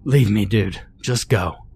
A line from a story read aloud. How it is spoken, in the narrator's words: panted